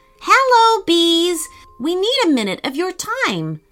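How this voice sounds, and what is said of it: Loud calling voice. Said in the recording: “in a loud voice”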